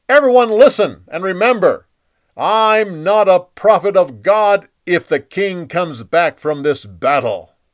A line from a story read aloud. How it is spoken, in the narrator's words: Micaiah yelled at the crowd